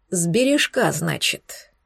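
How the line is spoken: Grim repetition. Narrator (Russian): мрачно повторил Эйнар

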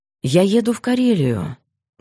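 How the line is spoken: Calm, thoughtful. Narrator (Russian): говорил он спокойно, даже задумчиво

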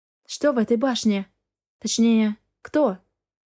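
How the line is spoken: Sighing question. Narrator (Russian): вздохнув, спросила я

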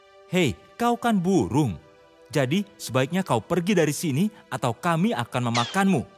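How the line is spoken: Animal leader shouting. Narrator (Indonesian): kapten dari hewan itu meneriakinya

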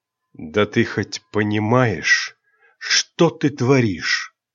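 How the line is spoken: Hissed. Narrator (Russian): Прошипел темный король

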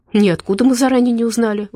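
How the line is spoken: Exclaimed. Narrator (Russian): воскликнула Надя

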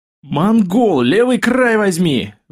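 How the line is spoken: Repeated yell. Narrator (Russian): в десятый раз заорал Демченко

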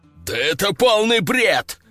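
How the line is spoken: Growling sultan. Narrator (Russian): рыкнул султан

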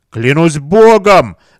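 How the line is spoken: Roaring. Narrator (Russian): взревел Варана

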